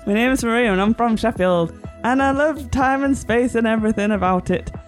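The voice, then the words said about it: Fake Sheffield accent. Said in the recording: “You're doing a fake Sheffield accent... she doesn't do a real one either”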